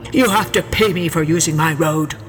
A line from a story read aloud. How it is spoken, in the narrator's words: shouted